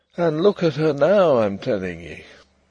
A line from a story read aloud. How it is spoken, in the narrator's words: he would say gloomily